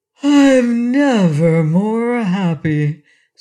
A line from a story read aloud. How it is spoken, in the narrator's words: said he with a sigh